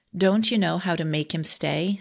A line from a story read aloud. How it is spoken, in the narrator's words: said another